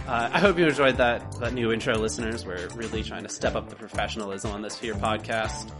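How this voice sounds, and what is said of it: Sick, congested voice from a cold. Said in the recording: “apologize for my voice. I've had a cold all week. ... I would sound less like I was sick, but I do sound less like I'm sick, but I'm not 100% better. ... adds a little bit of sort of luster to your voice ... like an old burnished pot”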